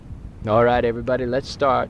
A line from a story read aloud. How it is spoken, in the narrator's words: said Jupiter